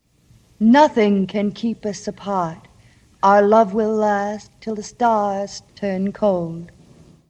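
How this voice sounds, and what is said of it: Transatlantic accent. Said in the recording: “that's actually Jean Hagen's regular voice ... That's Jean Hagen doing her like actual like what's it called? North Atlantic accent. ... Transatlantic accent.”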